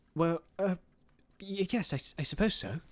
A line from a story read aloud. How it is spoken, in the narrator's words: stammered Bilbo